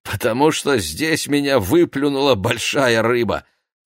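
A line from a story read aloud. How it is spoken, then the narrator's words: Laughing. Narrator (Russian): засмеялась госпожа Юдит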